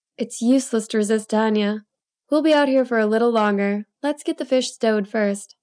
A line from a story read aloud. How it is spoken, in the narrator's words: Doreen chuckled as she took my other arm and said